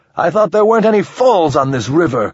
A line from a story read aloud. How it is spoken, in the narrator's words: Ramon shouted